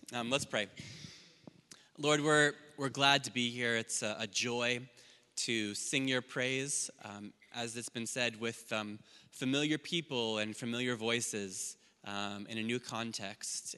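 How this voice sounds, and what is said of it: Foreign accent, speaking slowly. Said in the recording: “I'm going to try to speak a bit slower than usual ... I know I have a foreign accent”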